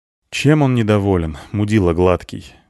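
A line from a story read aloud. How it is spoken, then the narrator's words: Grim question. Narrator (Russian): мрачно спросил я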